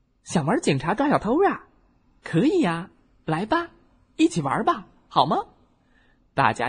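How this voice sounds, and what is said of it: Usual voice. Nothing is said of it.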